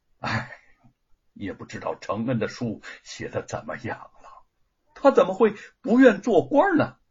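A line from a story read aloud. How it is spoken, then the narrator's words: Sighing. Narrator (Chinese): 沈伟叹息的说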